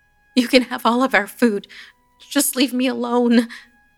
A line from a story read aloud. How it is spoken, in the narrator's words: I pleaded